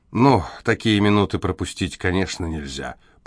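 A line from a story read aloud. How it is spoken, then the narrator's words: Muttered. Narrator (Russian): пробормотал Седрик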